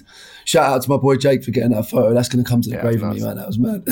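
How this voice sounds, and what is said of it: Hoarse, worn-out voice. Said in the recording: “as you can hear, mate, I left it all in that stadium. Like, my voice is gone. ... It's a good thing you're not on a podcast”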